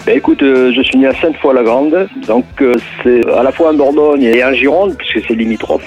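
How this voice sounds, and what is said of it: Southwestern French accent. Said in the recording (French): “ce joli accent du sud-ouest”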